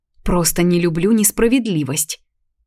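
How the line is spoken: Heated grumble. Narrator (Russian): Буркнула я, осознав, что и правда что-то слишком распалилось

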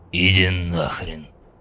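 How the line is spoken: General's mutter under breath. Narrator (Russian): пробурчал генерал под нос

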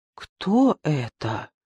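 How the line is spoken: Frightened question. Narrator (Russian): испуганно спросила Лидочка

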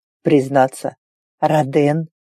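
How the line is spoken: Bursting into laughter. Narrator (Russian): Вольгот расхохотался

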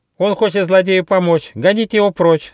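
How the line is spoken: Shrill yelling. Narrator (Russian): завопила мартышка Коко

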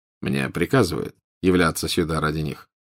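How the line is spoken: Quiet. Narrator (Russian): тихо произнес Волан-де-Морт

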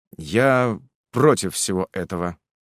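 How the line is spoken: Dry reply. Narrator (Russian): сухо ответил

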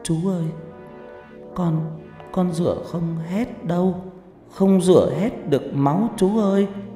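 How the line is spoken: Child whimpering, near tears. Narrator (Vietnamese): Nó mếu máo nói

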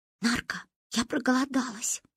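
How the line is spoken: Whisper in the ear. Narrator (Russian): шепнула мне на ухо Манька

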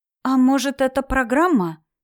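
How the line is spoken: Uncertain question. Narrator (Russian): неуверенно спросила жена Ленчика Шура, первый раз подав голос

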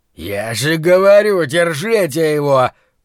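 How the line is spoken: Growl. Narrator (Russian): прорычал Рэй

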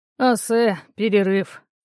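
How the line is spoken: Tired command. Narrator (Russian): устало приказал лекарь

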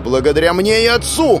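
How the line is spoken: Screamed. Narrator (Russian): Заорала она

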